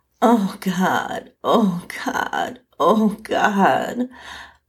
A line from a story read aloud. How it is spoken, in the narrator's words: I moaned over and over